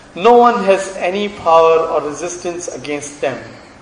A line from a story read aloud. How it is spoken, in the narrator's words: said Abu Sufyan